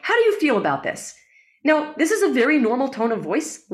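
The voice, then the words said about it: Raised higher-pitched excited voice. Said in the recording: “What if I changed my voice to talk up here ... How do you feel listening to my voice up here? ... I feel like you're very excited or something, passionate about something”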